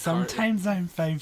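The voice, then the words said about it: Kyler Murray impression, baby voice. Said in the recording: “Kyler Murray's baby voice.”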